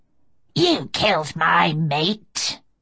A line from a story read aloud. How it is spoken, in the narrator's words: she snarled